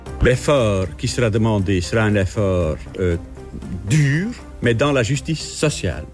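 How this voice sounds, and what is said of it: Slight accent with rolled Rs. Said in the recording (French): “son petit accent roulant les R comme personne”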